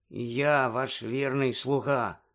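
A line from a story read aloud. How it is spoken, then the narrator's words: Gloomy grumble. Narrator (Ukrainian): понуро буркнув Червохвіст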